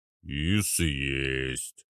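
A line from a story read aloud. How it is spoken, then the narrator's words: Smiling boom. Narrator (Russian): прогудел Арнольд, улыбаясь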